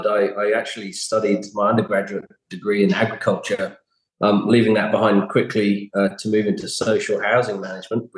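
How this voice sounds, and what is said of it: British English accent. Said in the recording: “it's not hard to pick from your accent because you're never going to lose that. You're originally from the UK”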